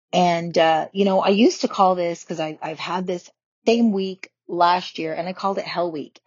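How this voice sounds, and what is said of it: Slightly raspy voice. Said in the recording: “you'll probably hear my voice is a little bit more raspy.”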